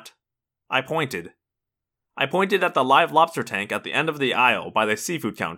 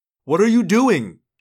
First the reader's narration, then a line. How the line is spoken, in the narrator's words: Jake yelled